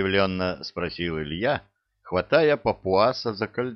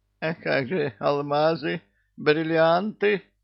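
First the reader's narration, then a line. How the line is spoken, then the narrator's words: Whimpering. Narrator (Russian): захныкал Чебурашка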